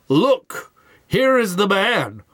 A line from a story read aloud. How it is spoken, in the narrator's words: Pilate exclaims